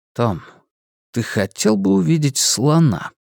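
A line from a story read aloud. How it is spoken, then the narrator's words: Gentle question. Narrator (Russian): мягко спросил Стью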